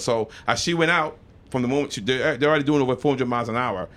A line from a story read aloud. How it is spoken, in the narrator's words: she snaps